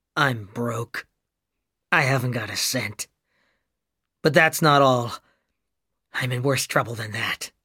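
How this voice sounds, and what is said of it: Dull, flat voice. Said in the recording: “in a dull voice.”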